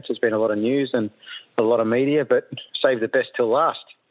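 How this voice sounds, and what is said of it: Slightly scratchy voice. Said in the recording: “my voice is a little bit scratchy”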